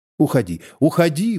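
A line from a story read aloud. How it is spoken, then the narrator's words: Pained, irritated exclamation. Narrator (Russian): воскликнула женщина голосом, в котором слышались боль и раздражение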